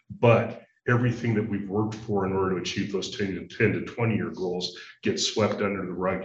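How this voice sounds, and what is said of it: Deep male voice. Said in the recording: “He's got a nice, good, deep voice.”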